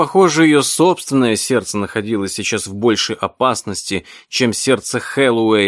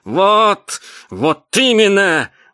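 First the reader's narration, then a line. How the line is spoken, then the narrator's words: Witch's shriek. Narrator (Russian): взвизгнула ведьма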